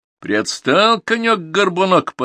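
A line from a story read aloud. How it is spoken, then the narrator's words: Laughing. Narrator (Russian): посмеялся Керенский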